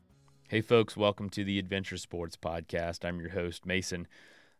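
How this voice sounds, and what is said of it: Slightly sick-sounding voice. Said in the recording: “I've been very sick over the weekend. You might hear it in my voice a little bit even today”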